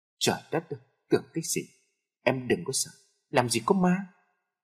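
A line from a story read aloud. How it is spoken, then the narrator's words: Laughing. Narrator (Vietnamese): Tôi bật cười nói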